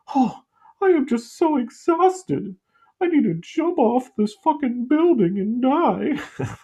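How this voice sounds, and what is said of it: Imitates another person's voice. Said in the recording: “my impression of that woman who killed herself”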